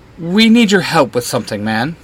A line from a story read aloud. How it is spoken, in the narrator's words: Justin stammers out